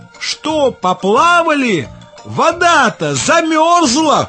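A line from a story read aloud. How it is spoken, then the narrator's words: Shouted. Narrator (Russian): крикнула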